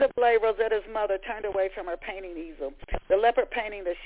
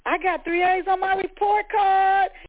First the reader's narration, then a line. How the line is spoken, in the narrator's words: Rosetta screamed